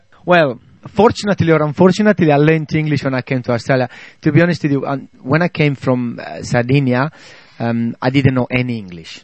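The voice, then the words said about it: Australian-Italian accented English. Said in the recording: “speaks English with an Australian accent combined with the Italian. I hear both of them”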